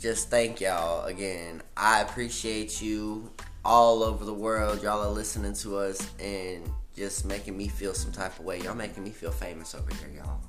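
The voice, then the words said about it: Country cowboy accent. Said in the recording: “there he go with that country boy cowboy accent”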